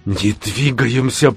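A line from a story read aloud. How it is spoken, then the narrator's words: Whisper. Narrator (Russian): прошептал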